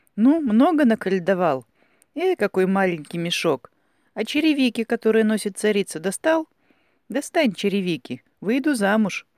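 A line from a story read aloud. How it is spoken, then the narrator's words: Laughing. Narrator (Russian): засмеявшись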